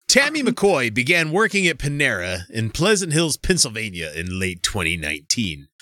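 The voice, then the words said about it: Dramatic ominous mystery-narrator voice. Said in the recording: “doing the evil voice ... I'm doing the unsolved mystery voice”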